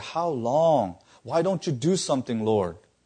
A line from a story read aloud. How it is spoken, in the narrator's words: he's pleading with God